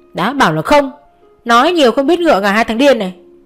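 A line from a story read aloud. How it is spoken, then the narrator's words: Shouting. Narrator (Vietnamese): Nhật cũng không kém, cô hét lên theo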